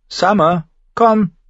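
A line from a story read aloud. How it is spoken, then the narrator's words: Called out. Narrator (German): rief Bran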